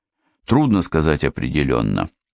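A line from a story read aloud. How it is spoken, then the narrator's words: Plain. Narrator (Russian): ответил подполковник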